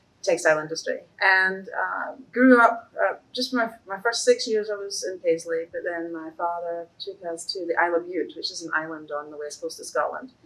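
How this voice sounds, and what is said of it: Scottish accent. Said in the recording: “Your accent's different than mine ... I was born in Scotland”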